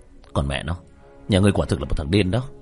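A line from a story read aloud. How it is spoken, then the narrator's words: Cold. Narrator (Vietnamese): Diệp Thiếu Dương lạnh lùng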